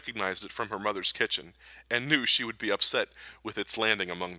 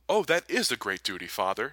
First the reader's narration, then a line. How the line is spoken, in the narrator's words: she exclaimed